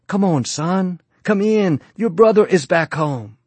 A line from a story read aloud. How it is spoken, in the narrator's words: His father pleaded with him